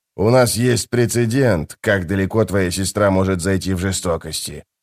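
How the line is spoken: Grumbling. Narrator (Russian): проворчал он

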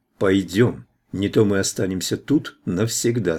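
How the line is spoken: Plain. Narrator (Russian): сказал он

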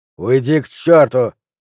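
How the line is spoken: Barking. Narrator (Russian): рявкнул Флинт

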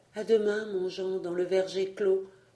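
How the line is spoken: Murmured. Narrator (French): murmura Rosie

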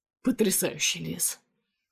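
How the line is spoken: Muttering. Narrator (Russian): бормочет Андрей

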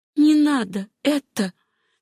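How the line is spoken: Quiet. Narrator (Russian): тихо сказала Сюзанна

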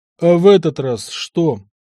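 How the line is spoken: Weary question. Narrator (Russian): устало поинтересовался я

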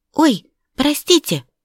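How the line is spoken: Exclamation. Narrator (Russian): воскликнула

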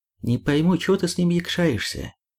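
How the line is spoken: Plain. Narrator (Russian): сказал Макс

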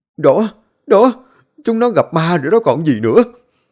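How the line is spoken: Trembling voice. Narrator (Vietnamese): Lão Bằng run run

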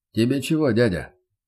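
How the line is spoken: Stern inquiry. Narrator (Russian): поинтересовался невысококубический

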